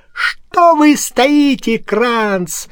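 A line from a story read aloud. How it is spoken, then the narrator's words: Judge's shriek. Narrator (Russian): взвизгнул судья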